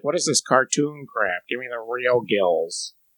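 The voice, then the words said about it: Imitated character voice. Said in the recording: “my imitation of the fish fetishist”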